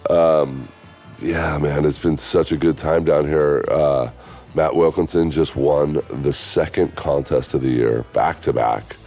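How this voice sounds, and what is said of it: Rough, tight voice from cold. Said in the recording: “Kind of got a cold right now. I don't know if you can hear it in my voice. It's kind of rough, it's tight.”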